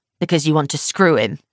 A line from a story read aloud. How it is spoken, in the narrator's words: he snarls